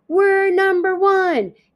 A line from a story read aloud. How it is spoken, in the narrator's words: He shouts into baby Polly's face